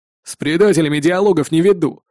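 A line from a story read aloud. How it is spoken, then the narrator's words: Displeased snort. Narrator (Russian): недовольно фыркнул он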